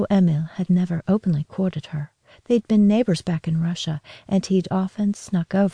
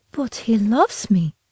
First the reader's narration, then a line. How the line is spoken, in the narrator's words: cried